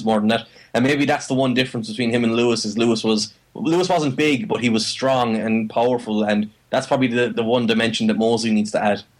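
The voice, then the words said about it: Irish accent. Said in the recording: “that Irish accent”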